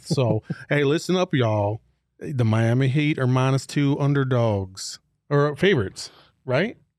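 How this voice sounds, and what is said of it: Put-on slow Southern drawl. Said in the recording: “Southern accent ... You got to talk like molasses are coming out your mouth.”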